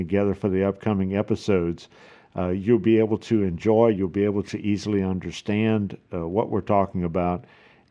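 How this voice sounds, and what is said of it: South Louisiana accent. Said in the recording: “I'm originally from South Louisiana, so if you don't recognize the accent, that's what it is.”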